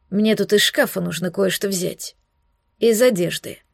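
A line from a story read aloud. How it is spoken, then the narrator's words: Inquisitor's muffled declaration. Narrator (Russian): глухо заявил инквизитор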